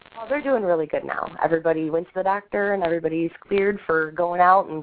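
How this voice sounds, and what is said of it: Sick, rough-sounding voice. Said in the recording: “Sorry about my voice. I've had the flu the past week.”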